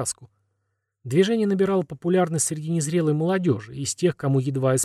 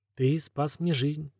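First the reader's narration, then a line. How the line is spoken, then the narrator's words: Quiet, smiling. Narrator (Russian): тихо говорит Милена и улыбается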